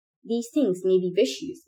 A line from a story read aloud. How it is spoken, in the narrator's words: Minho said